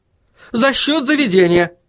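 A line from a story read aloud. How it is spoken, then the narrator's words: Exclaiming. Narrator (Russian): воскликнул Достабль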